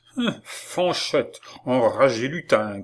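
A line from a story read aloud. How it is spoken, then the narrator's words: Angry growl. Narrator (French): gronda monsieur Lecoq en colère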